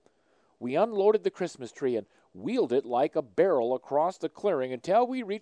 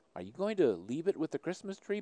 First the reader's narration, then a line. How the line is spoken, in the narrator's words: my son asked